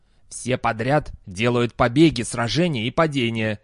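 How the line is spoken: Angry. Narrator (Russian): сердито произнес Дастабль

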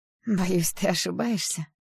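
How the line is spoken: Hoarse laugh. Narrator (Russian): хрипло рассмеялась я

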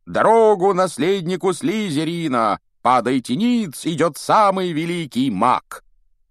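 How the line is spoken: Loud shouting. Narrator (Russian): они все … громко крича

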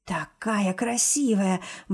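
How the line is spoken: Excited mutter. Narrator (Russian): бормочет возбужденно

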